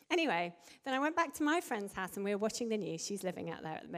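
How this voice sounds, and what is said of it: Usual voice. Nothing is said of it.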